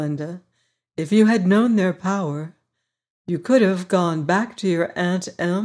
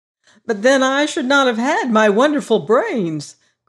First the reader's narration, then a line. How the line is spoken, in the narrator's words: cried the Scarecrow